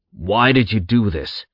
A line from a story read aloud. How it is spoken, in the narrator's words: Zack growled, his anger already building